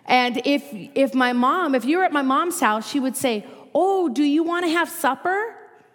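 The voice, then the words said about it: Minnesota accent. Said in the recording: “Some of you probably can still hear my accent, ... where, are you from Minnesota?”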